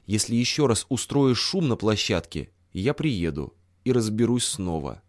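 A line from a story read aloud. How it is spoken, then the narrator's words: Calm, almost polite. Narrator (Russian): сказал спокойно, почти вежливо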